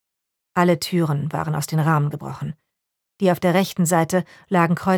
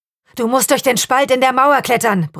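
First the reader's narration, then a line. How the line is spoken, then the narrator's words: Masked man bellowing. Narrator (German): brüllte der Maskenmann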